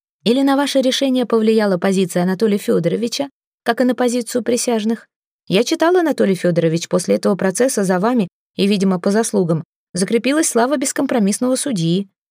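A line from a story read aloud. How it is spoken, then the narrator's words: Sly, mocking question. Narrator (Russian): Успенский ехидно спросил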